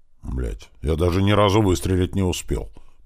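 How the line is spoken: Grumbling. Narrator (Russian): пробурчал Слива

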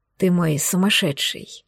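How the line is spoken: Passionate whisper. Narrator (Russian): жарко шептала мне в губы

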